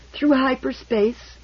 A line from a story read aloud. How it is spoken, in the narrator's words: Abling Meese interposed wearily